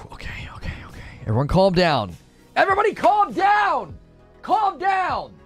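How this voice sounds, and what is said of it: Yelling. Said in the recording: “sorry for yelling”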